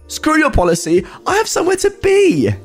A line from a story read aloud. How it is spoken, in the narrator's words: she barks back at him